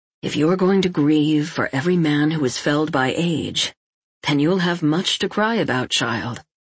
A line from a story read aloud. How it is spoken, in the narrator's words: Lavrans said in a calm and quiet voice